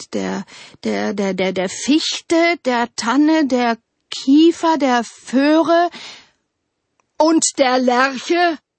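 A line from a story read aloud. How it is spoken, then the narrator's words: Roaring winter. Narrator (German): brüllte der Winter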